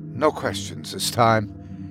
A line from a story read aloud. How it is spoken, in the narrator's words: said quietly